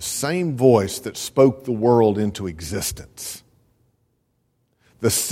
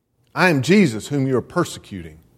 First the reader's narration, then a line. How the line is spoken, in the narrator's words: said